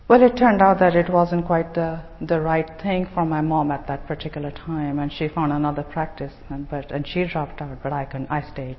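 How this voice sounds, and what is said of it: Indian accent. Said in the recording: “as you can tell from my accent ... I wasn't brought up here. I was brought up in India, in Bombay”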